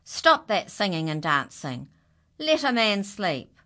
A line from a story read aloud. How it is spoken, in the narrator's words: shouted